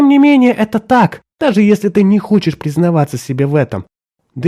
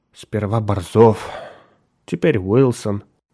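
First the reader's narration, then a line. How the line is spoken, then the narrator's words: Sighed. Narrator (Russian): вздохнул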